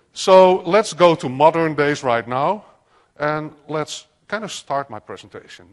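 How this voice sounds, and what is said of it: Dutch accent. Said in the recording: “Sorry for my funny accent. I'm from the Netherlands”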